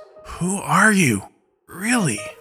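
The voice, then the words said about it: Weak voice. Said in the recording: “speaks now in a weak voice.”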